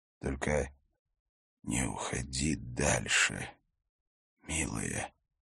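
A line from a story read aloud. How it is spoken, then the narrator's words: Whispered. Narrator (Russian): шептал он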